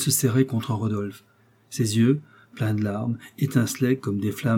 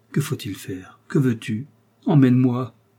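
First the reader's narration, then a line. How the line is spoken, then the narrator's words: Woman exclaims. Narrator (French): s'écria-t-elle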